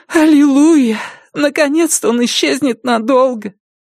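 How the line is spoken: Sobbing. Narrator (Russian): Порция разрыдалась

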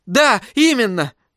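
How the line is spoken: Exclamation. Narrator (Russian): воскликнул Томас

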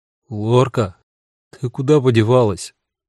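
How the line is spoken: Uncertain calling. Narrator (Russian): неуверенно позвал

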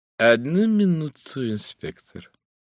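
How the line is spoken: Drawling lawyerly voice. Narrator (Russian): тягучим адвокатским голосом сказал мистер Моксон

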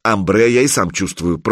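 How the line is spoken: Grumbled. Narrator (Russian): проворчал Санек

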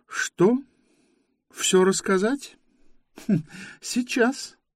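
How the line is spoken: Laughing girl. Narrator (Russian): рассмеялась девушка

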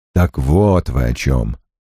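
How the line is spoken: Grumbled. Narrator (Russian): проворчал Крэмер

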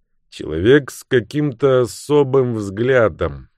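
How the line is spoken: Gloomy. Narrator (Russian): мрачно ответил Люк

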